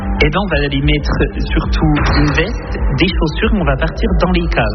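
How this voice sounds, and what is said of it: Franc-comtois regional French accent. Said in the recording (French): “il y aura mon accent, hein, c'est cadeau ... charmant franc-comtois, comme vous avez pu l'entendre”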